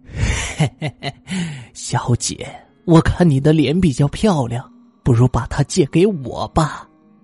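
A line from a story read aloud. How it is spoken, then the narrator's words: Wicked laugh. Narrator (Chinese): 女人恶毒的笑了笑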